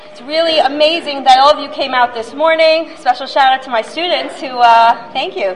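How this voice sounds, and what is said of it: Voice hoarse and low from cold. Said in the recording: “I have a cold, so my voice is a little down.”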